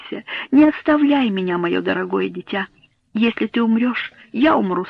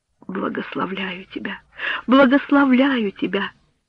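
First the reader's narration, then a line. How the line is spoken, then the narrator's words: Through sobs. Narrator (Russian): проговорила мать сквозь рыдания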